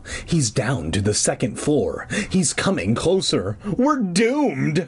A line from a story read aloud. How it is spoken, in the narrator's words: Clark groaned